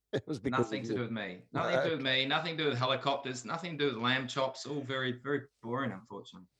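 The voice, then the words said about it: Slight New Zealand accent. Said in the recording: “I can sense that you have a Kiwi accent. ... It's more an international accent ... I still have a bit of a Kiwi twang.”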